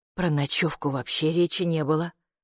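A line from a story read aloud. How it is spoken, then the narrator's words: Mother's grumble. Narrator (Russian): проворчала мама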